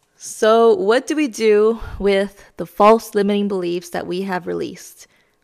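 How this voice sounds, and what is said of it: Slightly raspy voice. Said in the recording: “my voice is a little raspy because I'm getting over being sick ... bear with me and my raspy voice”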